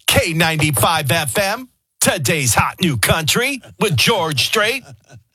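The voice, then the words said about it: Exaggerated country radio DJ voice. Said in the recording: “you go into your country radio voice ... Country radio voices are always in syllables.”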